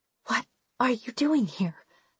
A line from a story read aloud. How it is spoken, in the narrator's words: I whisper